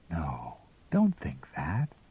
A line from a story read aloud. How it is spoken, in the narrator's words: she cried softly